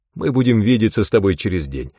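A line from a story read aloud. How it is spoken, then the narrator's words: Cheerful guess. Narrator (Russian): весело предположил Эйнсли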